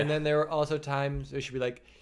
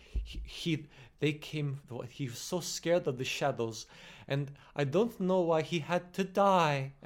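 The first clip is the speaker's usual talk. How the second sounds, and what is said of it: Fake Russian accent, slipping in and out. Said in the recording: “clearly like a British actor... Trying to do a Russian accent... truly slipping in and out of it”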